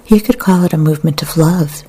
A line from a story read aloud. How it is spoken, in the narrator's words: said